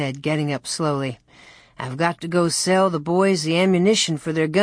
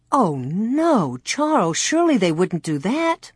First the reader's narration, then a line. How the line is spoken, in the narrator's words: Ma exclaimed